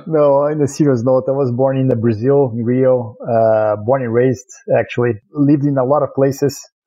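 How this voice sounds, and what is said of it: Brazilian accent. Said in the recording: “everyone's going to hear your accent as soon as you start talking ... this Brazilian accent”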